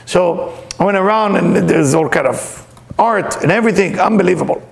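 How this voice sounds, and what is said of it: Speaks with a noticeable accent. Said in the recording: “with my accent sound like 16 chapel”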